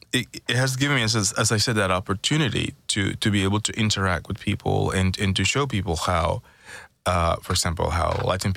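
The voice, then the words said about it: Speaks with a noticeable accent. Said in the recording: “I would love to just have your accent ... How you just say Caribbean ... It sounds good. I would love to have your accent.”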